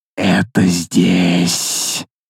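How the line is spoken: Hissing. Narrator (Russian): Прошипел Нактас

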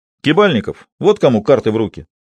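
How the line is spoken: Exclamation. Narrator (Russian): воскликнул Ведерников

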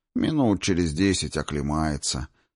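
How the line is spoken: Calm. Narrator (Russian): спокойно сообщил я

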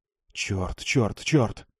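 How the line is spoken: Whispered. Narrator (Russian): прошептал он

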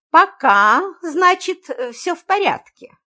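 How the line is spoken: Meaningful, thoughtful. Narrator (Russian): многозначительно произнес Демин, задумчиво

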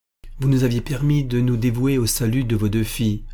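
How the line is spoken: Plain. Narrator (French): dit Armand Louis

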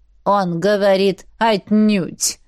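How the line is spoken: Plain. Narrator (Russian): сказала она двери

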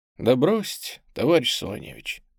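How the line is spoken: Soft asking tone. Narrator (Russian): мягким тоном просит Гай

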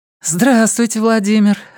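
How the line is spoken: Joyful, smiling. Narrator (Russian): радостно улыбнулась она

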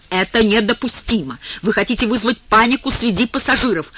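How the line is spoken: Irritated male tone. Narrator (Russian): Он продолжает раздраженным тоном

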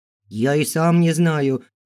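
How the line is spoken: Babbled. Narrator (Russian): залепетал щуплый мужичок

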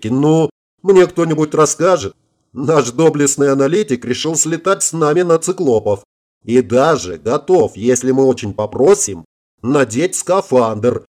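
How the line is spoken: Explained while laughing. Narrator (Russian): не прекращая хохотать, объяснила ему Ирка

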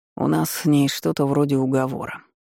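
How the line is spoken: Grumbling. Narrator (Russian): проворчал Редхейвен

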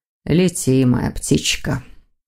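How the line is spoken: Weary. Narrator (Russian): устало проговорил Виктор

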